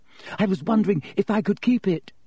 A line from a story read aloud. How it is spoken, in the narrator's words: she said breathlessly